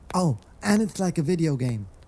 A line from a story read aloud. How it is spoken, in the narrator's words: Squid blurted out, remembering more of the theory